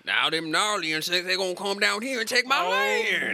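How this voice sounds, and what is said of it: Put-on Southern US accent. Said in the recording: “give my Warrior of Light a southern accent ... I just had a very visceral reaction to that accent”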